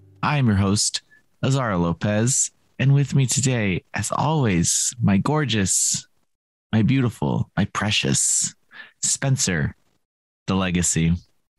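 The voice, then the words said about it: Sultry voice with vocal fry. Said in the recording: “got a little bit of vocal fry going on. He's got a little bit of a sultry, hey, everyone.”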